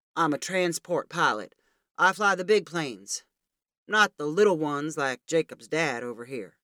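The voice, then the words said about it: Deep baritone character voice. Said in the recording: “in his baritone voice.”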